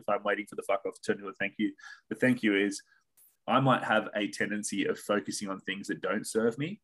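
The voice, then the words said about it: Australian accent. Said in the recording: “another friend from Australia that's got a great accent”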